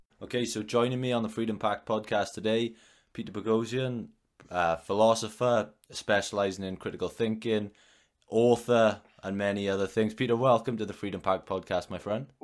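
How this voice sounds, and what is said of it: Noticeable accent. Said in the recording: “I love that accent. Very, very good. Excellent.”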